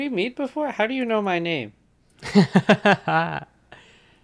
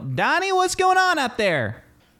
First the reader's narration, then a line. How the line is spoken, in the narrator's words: From the back, kind of out of view, someone yell